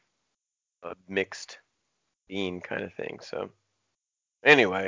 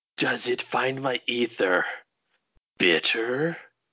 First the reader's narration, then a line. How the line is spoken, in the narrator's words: growled